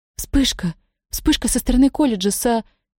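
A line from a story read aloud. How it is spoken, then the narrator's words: Female babbling. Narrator (Russian): одна из операторш пролепетала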